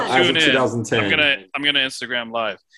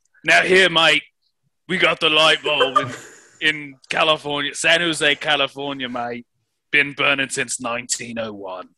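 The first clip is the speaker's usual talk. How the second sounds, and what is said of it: Bastardized put-on UK accent. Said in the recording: “You are switching between your normal voice, some kind of bastardized UK accent”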